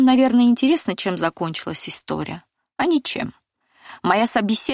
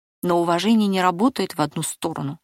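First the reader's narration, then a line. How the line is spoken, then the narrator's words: Calm objection. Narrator (Russian): спокойно возразила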